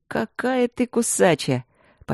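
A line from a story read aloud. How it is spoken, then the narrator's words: Breathless, admiring. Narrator (Russian): Почти с восхищением выдохнул Люк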